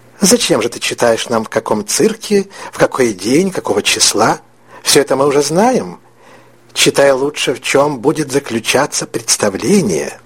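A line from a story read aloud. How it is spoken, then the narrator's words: Quiet. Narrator (Russian): тихо произнесла тетя Соня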